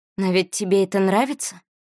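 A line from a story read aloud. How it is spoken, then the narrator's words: Breathy exhale. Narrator (Russian): выдохнула Валери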